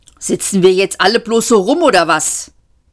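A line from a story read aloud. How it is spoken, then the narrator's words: Angry. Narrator (German): sagte Seyfort wütend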